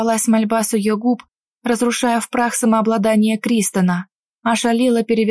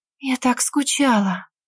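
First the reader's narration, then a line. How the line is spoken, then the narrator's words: Whispered. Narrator (Russian): прошептала Эвелина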